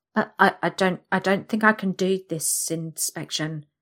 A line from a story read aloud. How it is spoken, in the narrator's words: I stammer